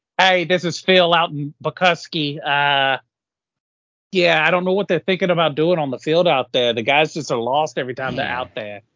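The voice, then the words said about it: Bad New York caller accent. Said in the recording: “Northeast. Like New York caller ... It's a horrible accent.”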